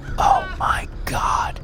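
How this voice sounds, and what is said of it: Whispered exclamation. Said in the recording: “I whisper.”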